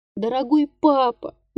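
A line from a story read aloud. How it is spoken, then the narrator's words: Child's tender pleading. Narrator (Russian): нежно умолял детский голос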